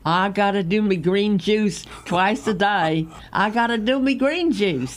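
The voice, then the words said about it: Playful put-on accent. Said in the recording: “Whatever me accent ... It's a great accent.”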